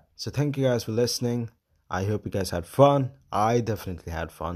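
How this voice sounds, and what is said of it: Hoarse, strained voice. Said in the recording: “Oh my God, my voice is just gone. Hour of speaking after a bad cold... I'm a bit rough. But I can't speak. I couldn't even say the word but.”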